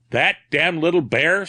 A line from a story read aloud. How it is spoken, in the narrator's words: snarled Black Jean